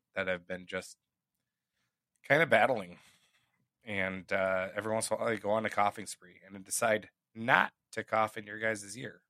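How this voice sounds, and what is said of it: Slightly hoarse voice. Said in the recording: “my voice is a little bit more hoarse ... this little tickle slash cough kind of like irritant hoarseness in my throat”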